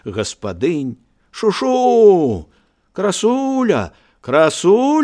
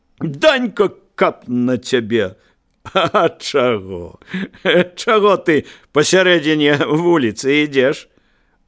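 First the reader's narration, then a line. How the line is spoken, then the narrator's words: Smiling. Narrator (Belarusian): усміхнуўся роўнымі зубамі Данька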